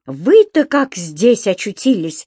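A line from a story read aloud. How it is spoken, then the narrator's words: Exclamation. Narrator (Russian): воскликнул он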